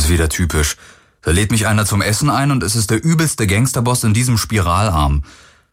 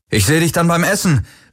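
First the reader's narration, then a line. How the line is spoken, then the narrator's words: Calling out. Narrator (German): rief er Kirai zu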